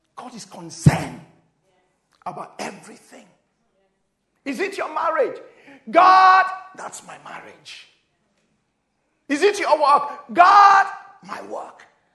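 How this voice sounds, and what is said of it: Excited shouting preacher delivery. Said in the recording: “I'm shouting like an African man now. I'm just getting excited.”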